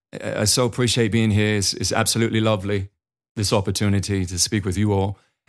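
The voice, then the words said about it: Imitated British accent, not great. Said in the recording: “I know the English accent isn't that great ... I try to start the presentation in a British accent.”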